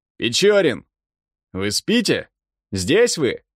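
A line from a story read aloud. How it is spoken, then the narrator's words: Captain shouting. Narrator (Russian): закричал капитан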